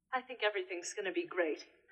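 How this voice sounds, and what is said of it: British accent, sounds elderly. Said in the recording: “Why does she sound like she has a British accent? ... all of a sudden she sounds 92.”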